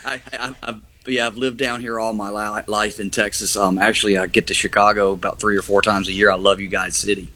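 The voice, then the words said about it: Southern US accent. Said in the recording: “a Southern accent”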